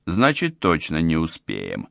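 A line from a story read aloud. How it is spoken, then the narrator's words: Grim statement. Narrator (Russian): мрачно констатировал я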